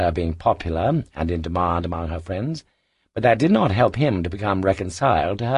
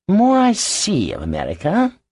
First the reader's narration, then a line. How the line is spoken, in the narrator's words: sighed Archie